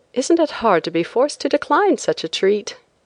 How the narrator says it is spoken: I exclaimed, adding in the same breath

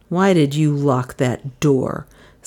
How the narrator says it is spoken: said Bailey angrily

